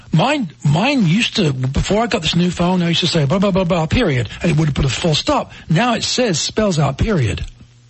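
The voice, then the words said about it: English accent. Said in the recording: “it doesn't like your accent ... it doesn't speak English. Can I get an English phone? ... the British version of Siri”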